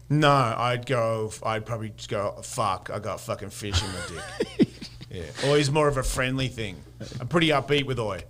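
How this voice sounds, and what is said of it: Australian accent, drops the T. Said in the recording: “Big down under ... If you have the accent, you can get away with it ... I don't hit the T”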